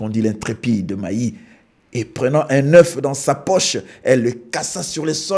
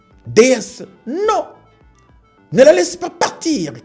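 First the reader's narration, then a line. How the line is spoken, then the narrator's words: Mother shouting. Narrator (French): cria sa mère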